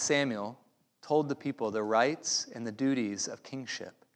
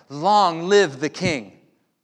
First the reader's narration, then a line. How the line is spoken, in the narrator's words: all the people shouted